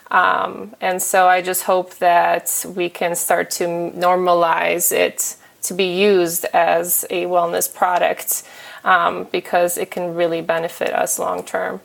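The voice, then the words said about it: Polish accent. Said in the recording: “Pardon my Polish accent.”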